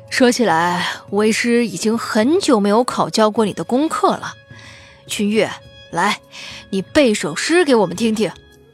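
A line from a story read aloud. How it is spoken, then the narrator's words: Smiling, cheerful. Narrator (Chinese): 关老师笑着，笑吟吟道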